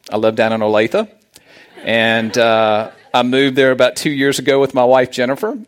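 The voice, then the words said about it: Southern American accent. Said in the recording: “As you can tell from my accent, I am from the South.”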